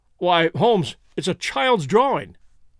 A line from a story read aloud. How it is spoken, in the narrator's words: I cried